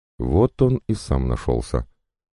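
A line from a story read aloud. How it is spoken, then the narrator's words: Unexpectedly calm, suppressed emotion. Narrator (Russian): произнесла Агриппина Ивановна, и ее голос прозвучал неожиданно спокойно на фоне бушевавших в ней эмоций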